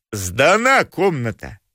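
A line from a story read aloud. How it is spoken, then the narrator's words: Deep bass voice. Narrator (Russian): сказал басом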